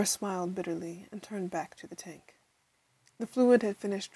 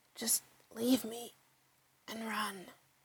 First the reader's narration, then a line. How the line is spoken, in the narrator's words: whispered the abomination